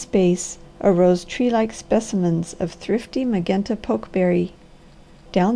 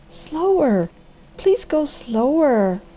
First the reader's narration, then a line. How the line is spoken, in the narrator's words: at every step the girl cried